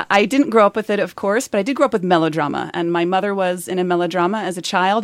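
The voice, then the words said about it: American accent. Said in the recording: “I'm detecting an accent ... An American”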